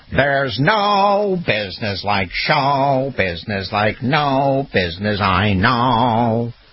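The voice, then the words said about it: Sung imitation of another person's voice. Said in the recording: “hear my Ethel Merman imitation?... Proving that he can sing as well.”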